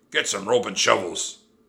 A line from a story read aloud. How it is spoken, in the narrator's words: he roared at his men